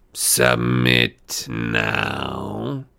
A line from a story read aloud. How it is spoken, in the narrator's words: she hissed